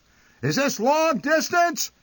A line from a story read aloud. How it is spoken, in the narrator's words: he would shout into the receiver